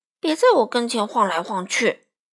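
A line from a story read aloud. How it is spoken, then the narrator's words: Muttering. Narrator (Chinese): 艾迪熊嘟囔着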